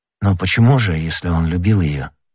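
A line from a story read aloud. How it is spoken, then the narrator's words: Plain. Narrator (Russian): спросил Д'Артаньян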